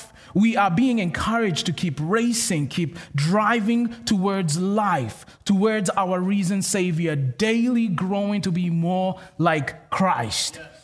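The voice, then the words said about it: Kenyan accent. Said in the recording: “where is that accent from? I'm from Kenya, which is in Africa.”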